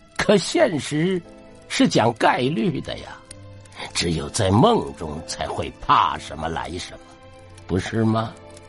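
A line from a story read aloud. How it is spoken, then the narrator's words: Laughing. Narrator (Chinese): 笑着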